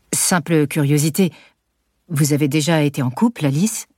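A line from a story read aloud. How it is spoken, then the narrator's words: Detached tone. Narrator (French): demande d'un ton détaché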